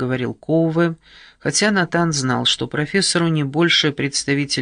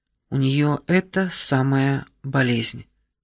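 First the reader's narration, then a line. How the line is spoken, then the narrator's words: Muffled, through pain. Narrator (Russian): превозмогая боль, глухо произнесла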